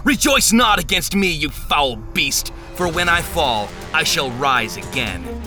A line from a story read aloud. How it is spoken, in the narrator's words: shouted the words